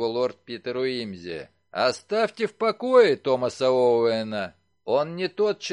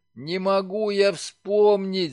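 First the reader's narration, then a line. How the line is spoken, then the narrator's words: Groaning. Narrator (Russian): застонал Симпкинс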